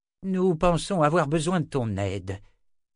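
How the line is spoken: More conciliatory tone. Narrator (French): dit Zed d'un ton plus conciliant

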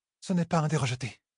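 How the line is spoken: Whispering. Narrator (French): souffla la fille héritière

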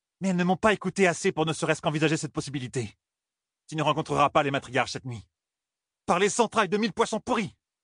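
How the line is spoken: Exclaimed. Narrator (French): s'écria Suan

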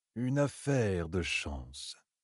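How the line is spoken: Calm. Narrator (French): dit-il d'un ton calme

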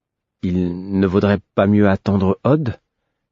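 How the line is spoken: Timid, tentative. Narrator (French): hasardai-je timidement

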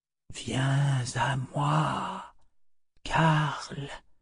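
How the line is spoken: Murmured in ancient tongue. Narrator (French): murmura-t-il dans l'antique langage

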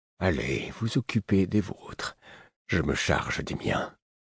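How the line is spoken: Gentle, woman. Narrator (French): une autre dit doucement

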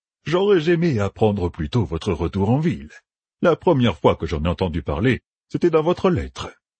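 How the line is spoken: Affable, friendly tone. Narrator (French): dit Kéline d'un ton affable

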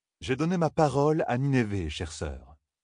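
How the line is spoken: Calm reply. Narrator (French): répondit calmement Galad

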